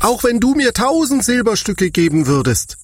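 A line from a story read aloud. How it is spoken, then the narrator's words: Indignant shout. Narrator (German): rief er entrüstet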